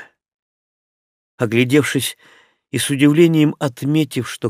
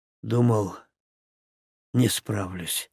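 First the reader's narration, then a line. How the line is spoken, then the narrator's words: Hoarse voice. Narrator (Russian): хрипло проговорил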